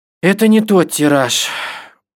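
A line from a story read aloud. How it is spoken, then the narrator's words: Father, tired. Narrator (Russian): устало сказал папа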